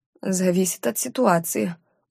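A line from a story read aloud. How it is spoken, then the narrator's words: Stubborn wheeze, attempted smirk. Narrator (Russian): упрямо просипела в ответ, даже попыталась усмехнуться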